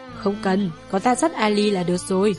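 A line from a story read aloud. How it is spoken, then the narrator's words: Laughing, gentle. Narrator (Vietnamese): cười nói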